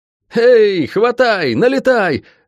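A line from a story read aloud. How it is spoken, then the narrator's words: Yelling battle cry. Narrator (Russian): заорал бывший стражник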